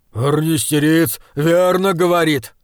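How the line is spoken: Shouting stout man. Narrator (Russian): закричал тучный Ордмайер

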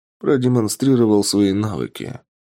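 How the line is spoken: Calm reply. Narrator (Russian): спокойно ответил Тапок

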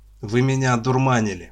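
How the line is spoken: Snapping. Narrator (Russian): огрызнулся Лопатин

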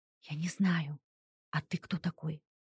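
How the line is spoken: Confused whisper. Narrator (Russian): спросила я шепотом, не понимая, что происходит и где нахожусь

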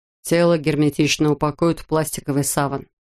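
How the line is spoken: Plain. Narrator (Russian): сказал Катлер

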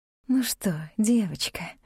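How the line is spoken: Said tenderly. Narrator (Russian): ласково проговорила

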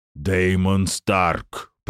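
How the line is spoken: Roaring giant. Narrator (Russian): проревел гигант

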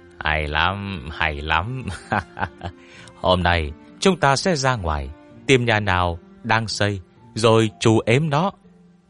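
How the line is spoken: Laughing loudly. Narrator (Vietnamese): cười lớn

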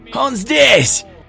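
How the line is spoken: Someone shouting. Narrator (Russian): выкрикнул кто-то

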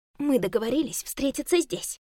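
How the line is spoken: Hissing. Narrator (Russian): прошипела Ярослава

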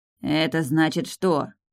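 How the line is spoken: Angry. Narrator (Russian): зло уточнил блондин

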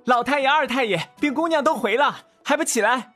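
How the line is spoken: Chuckling. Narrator (Chinese): 齐木典呵呵一笑

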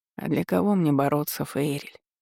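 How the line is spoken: Tired question. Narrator (Russian): спросил он устало

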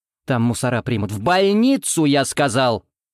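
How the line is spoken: Doctor barking. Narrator (Russian): рявкнул врач

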